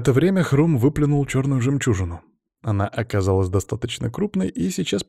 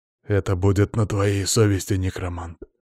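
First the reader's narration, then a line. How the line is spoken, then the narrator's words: Growling. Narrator (Russian): рычал в стороне Иван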